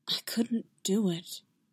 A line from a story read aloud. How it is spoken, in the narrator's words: he whispered back